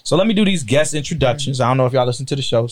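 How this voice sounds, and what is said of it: Slightly slurred, drunk-sounding speech. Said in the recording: “that might be why I sound a little drunk. ... You are a little slurred over there. ... I'm a little tired”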